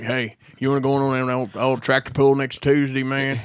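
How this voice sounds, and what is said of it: Exaggerated Southern rural accent. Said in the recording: “you don't have an accent ... Southern”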